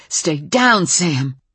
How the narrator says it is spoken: saying urgently

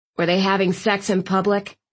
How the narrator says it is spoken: Thistle asked dryly

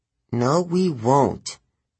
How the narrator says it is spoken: Grover said miserably

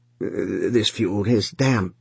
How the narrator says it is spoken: he muttered from behind the stove

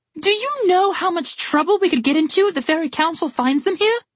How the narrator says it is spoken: Red yelled

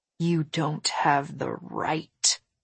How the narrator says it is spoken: I said in a low voice

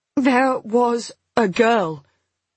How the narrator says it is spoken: I said at last, my voice unsteady

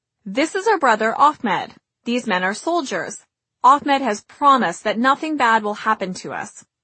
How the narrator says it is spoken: said brightly

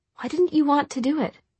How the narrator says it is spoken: Tessa asked a little hesitantly

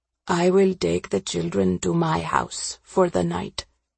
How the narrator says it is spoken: Ravi said quietly

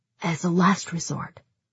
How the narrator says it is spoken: whispered

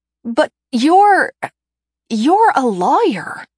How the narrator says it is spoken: I stammer

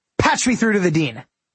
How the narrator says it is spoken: with an overwhelming sense of urgency, I blurted

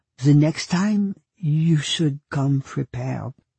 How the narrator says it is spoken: It took all she had to say softly

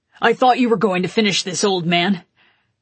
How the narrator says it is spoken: growled at him

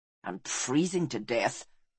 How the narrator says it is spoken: muttered Balistar

